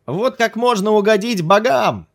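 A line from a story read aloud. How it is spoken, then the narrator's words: Yelling after someone. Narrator (Russian): заорал ему вслед Ким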